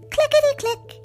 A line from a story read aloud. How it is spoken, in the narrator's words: it chirped